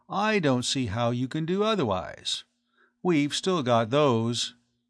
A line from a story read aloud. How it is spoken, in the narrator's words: the other added coolly